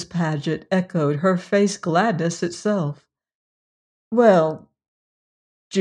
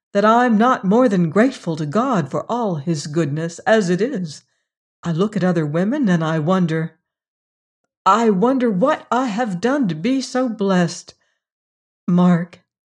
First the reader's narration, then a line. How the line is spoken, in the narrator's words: she went on hastily and earnestly